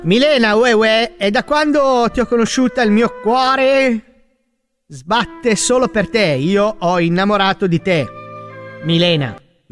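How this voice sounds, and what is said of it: Clumsy put-on Neapolitan accent. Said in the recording (Italian): “È il napoletano. ... Ma non fa wey wey il napoletano ... Mamma, che livello.”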